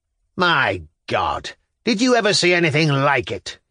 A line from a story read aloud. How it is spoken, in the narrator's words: roared